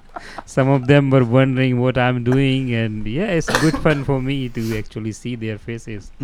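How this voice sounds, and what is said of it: Indian accent. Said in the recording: “Some of them were laughing at my accent ... you're playing an academic who's Indian”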